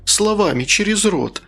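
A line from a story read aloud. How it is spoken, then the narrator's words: Pleading. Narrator (Russian): взмолилась я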